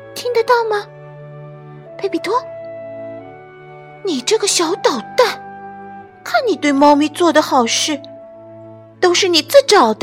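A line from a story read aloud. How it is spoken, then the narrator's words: Whispering. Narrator (Chinese): 马德琳小声说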